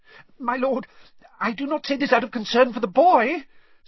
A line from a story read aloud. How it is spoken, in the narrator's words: said Wormtail, his voice rising squeakily